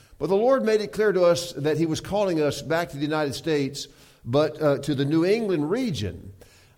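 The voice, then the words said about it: Southern US accent. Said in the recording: “you can tell from my accent that I'm from the South”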